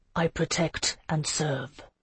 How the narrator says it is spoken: he said softly

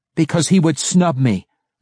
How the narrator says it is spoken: Massage yelled

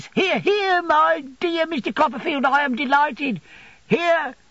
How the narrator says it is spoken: crying from within in a shrill voice

